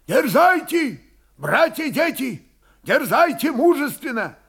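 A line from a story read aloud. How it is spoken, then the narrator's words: Loud. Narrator (Russian): Громко говорил воевода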